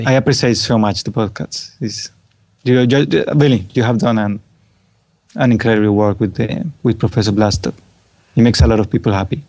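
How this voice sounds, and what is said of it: Soothing, rich foreign accent. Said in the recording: “your soothing voice ... your soothing, rich accent”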